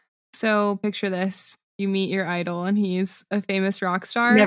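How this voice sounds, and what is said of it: Usual voice. Nothing is said of it.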